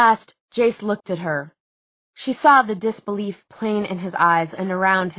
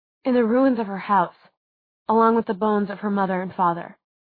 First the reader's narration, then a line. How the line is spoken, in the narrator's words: said Clary quietly